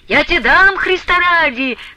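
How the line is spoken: Shouting. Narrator (Russian): кричал Потап Максимыч

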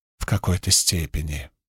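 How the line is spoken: Whispered. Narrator (Russian): прошептала Навани

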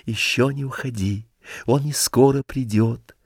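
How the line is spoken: Whispered. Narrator (Russian): Он шепотом сказал

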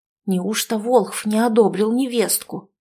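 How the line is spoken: Villagers whispering. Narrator (Russian): шептались селяне

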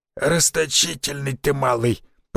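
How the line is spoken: Hoarse wheeze. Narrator (Russian): просипел

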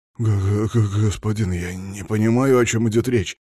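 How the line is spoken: Mumbled, young prince. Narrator (Russian): промямлил княжич

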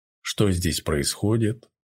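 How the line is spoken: Cold question. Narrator (Russian): холодно спросил он

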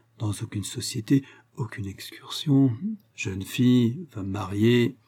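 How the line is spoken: Low voice. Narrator (French): ajouta-t-elle à mi-voix

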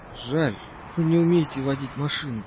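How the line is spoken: Hoarse. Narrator (Russian): сипло сказал Вайсборд

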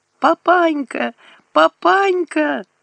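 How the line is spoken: Sobbing. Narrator (Russian): рыдала Катька

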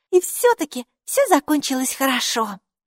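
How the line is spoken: Exclaiming. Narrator (Russian): воскликнула Майки

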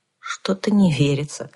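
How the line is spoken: Sighing. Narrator (Russian): вздохнул Лен

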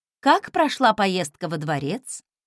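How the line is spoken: Plain. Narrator (Russian): спросила я Фостона

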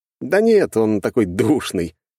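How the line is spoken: Laughing. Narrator (Russian): рассмеялся я

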